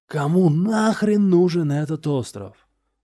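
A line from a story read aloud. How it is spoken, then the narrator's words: Yell. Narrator (Russian): вопил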